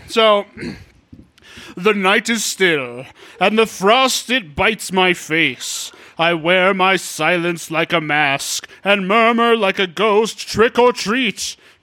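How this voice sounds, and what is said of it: Spooky, dramatic poetry-reading voice. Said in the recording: “my spooky Poe voice ... I dramatically read them ... in my spooky poetry voice”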